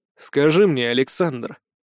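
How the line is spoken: Icy tone. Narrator (Russian): ледяным тоном обратился

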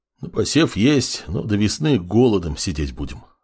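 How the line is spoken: Sullen mutter. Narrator (Russian): хмуро буркнул староста

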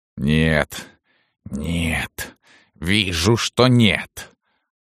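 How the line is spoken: Strained rasp. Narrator (Russian): только и могла прохрипеть Салтычиха

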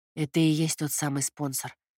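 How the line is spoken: Barely audible. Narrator (Russian): еле слышно произнес Костя

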